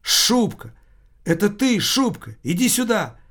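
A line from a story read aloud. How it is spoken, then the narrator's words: Exclaiming. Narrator (Russian): Таммазо Кампанелло воскликнул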